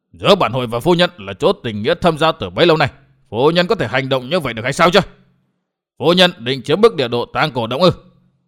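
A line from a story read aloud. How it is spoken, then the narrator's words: Angry. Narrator (Vietnamese): Hội chủ Tư Mã Xanh liền giận dữ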